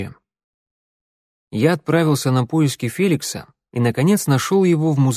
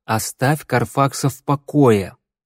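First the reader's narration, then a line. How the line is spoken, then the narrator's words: Through gritted teeth. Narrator (Russian): процедил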